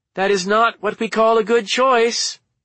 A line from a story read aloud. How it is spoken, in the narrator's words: yelled